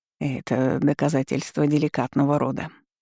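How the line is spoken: Quiet admission. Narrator (Russian): тихо признался градоначальник

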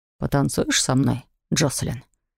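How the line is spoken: Soft offer. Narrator (Russian): мягко предложил Оливер

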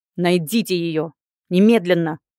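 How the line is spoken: Desperate bark. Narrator (Russian): рявкнул Элияр и сжал в отчаянии кулаки

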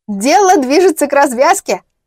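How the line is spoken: Laughing. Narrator (Russian): рассмеялась Зойка

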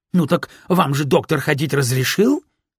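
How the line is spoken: Triumphant exclamation. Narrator (Russian): воскликнула она с таким видом, будто это решало все ее проблемы

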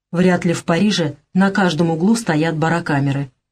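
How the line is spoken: Grumbling, suppressing fear. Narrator (Russian): Он прогнал охвативший его страх и пробурчал

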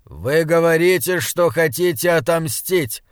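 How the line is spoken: Shout to crowd. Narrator (Russian): крикнул он бледной толпе

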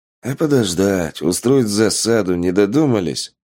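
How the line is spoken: Sighing. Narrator (Russian): вздохнул Полос

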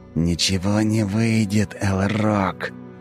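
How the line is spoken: Angry hiss. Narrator (Russian): Зло прошипел мне в лицо Тиракл

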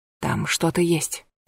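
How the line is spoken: Whisper. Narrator (Russian): прошептала

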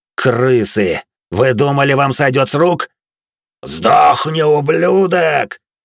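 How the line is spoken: Growled. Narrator (Russian): прорычал Рэм

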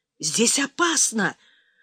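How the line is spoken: Whisper from behind doors. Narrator (Russian): зашептал ракетчик из-за дверей

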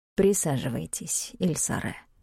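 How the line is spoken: Soft. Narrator (Russian): мягко проговорил блондин в центре

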